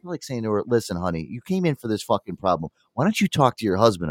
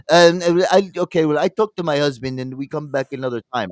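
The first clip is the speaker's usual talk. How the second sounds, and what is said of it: Put-on Russian accent. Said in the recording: “She goes in a Russian accent.”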